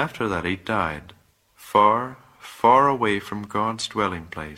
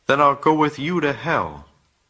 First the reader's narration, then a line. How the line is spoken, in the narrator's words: Voltaire called out